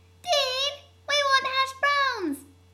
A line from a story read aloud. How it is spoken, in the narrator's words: one of the gremlins yells from the other room